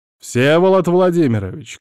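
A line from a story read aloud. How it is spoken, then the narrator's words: Shout. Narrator (Russian): крикнул я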